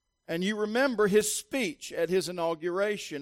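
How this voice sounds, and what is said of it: Usual voice. Nothing is said of it.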